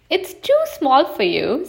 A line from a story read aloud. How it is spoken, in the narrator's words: said Little Bear, giggling